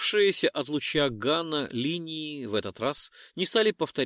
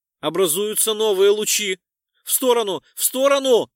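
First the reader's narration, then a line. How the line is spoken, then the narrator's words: Shouted. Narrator (Russian): прокричал Декс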